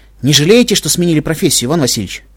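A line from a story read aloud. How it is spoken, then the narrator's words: Wry snort. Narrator (Russian): хмыкнул я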